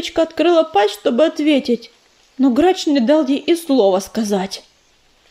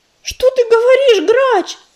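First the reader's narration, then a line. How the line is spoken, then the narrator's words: Breathless terrified cry. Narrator (Russian): Задыхаясь от ужаса, выкрикнула Листвечка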